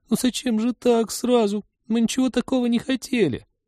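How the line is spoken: Penitent whining. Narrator (Russian): покаянно заскулила она

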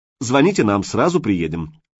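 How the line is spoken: Cheerful promise. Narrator (Russian): бодро пообещал участковый

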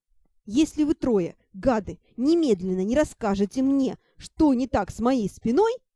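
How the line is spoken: Growl. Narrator (Russian): зарычала я

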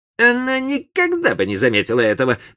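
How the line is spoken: Grumbling to himself. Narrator (Russian): проворчал он про себя

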